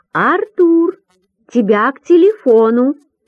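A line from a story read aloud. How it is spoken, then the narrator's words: Loud calling. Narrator (Russian): как всегда громко зовет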